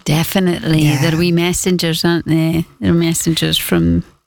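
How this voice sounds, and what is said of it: Woman speaking with a regional accent. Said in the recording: “I know how you're going to say it with your accent ... Doesn't she say it lovely?”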